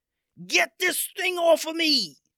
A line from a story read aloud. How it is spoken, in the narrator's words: he yelled out to his fellow pirates